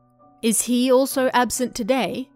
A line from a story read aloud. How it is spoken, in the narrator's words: I asked